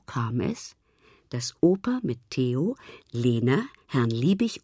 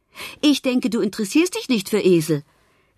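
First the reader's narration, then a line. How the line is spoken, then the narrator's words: Calling after someone. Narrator (German): rief Herr Liebig ihm nach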